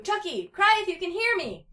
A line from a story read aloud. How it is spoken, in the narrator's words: Tommy yelled out